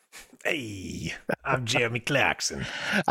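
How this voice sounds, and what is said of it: Fonzie impression. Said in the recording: “Fonzie impersonation”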